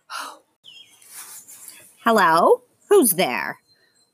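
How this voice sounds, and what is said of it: Creepy character voice. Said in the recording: “super creepy voice”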